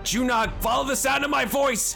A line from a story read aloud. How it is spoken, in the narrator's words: he just screams as he runs northward